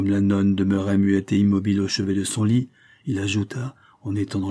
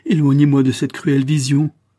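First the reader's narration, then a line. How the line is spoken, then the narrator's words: Exclamation. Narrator (French): s'écria-t-il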